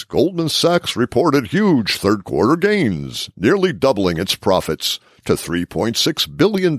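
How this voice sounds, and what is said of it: Announcer voice. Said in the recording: “This is my announcer voice.”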